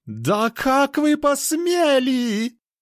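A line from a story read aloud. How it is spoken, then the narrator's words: Shrill squeal. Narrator (Russian): Провизжал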